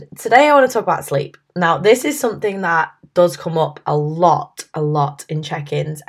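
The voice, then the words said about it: Husky, hoarse voice. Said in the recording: “excuse my voice, by the way. I'm not being very well. I've got this whole husky Phoebe from Friends thing going on”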